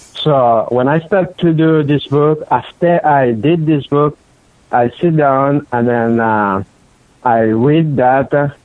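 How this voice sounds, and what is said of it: Non-native English accent. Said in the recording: “I'm not really good on English because I got accent. ... I tried my best in English, but that's not my original language.”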